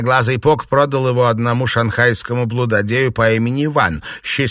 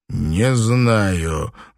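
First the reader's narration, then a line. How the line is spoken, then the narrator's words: Gloomy pronouncement. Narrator (Russian): мрачно изрек Танпо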